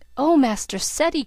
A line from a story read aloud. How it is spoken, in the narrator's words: cried Bridget in an awe-stricken voice